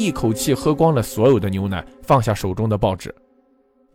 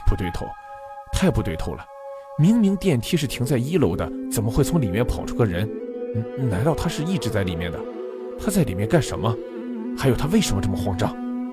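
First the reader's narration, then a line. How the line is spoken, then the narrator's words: Muttering to himself. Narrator (Chinese): 阿正喃喃自语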